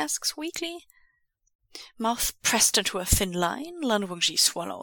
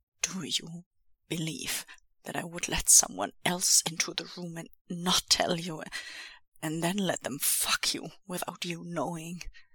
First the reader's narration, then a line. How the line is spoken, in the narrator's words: He says again, with a little more uncaged tremble-rumble in his voice